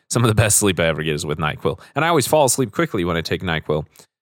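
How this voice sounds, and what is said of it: Raspy voice from a cold. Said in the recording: “I'm working off a little bit of a cold as well. So if my voice is a little bit more raspy than normal, that's why. I've got a bit of a sore throat”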